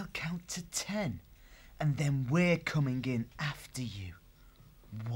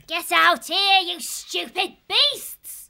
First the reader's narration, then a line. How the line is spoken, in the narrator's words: shouting